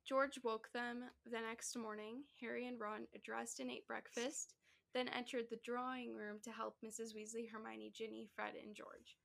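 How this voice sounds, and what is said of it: Tired, raspy voice. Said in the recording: “my voice is, like, does this at the end of the night... It'll start to get raspier as I go on and on”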